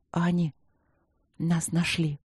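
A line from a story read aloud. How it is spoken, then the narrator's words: Quiet. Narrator (Russian): тихо сказала я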